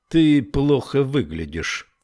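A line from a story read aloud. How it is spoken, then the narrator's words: Plain. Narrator (Russian): сказал ей Буденбаум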